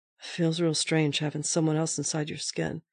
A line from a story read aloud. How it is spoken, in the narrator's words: Softly, said